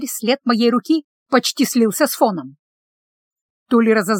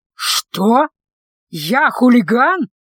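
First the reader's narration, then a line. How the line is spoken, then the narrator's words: Howling. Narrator (Russian): Он взвыл и опять побагровел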